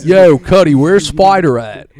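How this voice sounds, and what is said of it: Put-on Baltimore accent. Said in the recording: “that's my Baltimore accent, yo ... you sound like you from East Baltimore, cuz”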